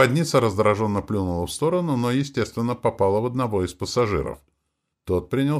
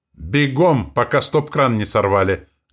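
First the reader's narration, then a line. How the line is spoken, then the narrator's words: Barked. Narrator (Russian): гаркнул мажор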